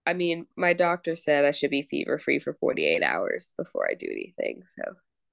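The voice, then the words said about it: Deep sick-sounding radio voice. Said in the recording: “my lovely, sexy radio voice ... Yes, that's very sexy.”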